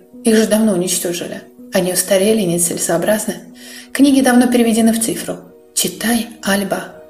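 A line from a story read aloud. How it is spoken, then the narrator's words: Gentle request. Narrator (Russian): Ласково просит Дерек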